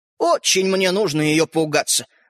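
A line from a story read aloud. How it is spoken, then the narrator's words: Snorting, small man. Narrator (Russian): фыркнул человечек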